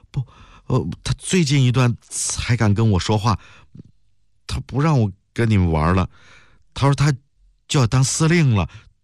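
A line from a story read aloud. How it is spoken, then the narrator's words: Trembling voice. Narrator (Chinese): 袁慧的声音颤抖起来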